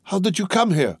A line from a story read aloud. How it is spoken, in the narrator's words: Marija exclaimed